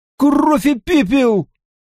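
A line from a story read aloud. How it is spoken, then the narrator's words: Shrieking. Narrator (Russian): взвизгнул Мэтт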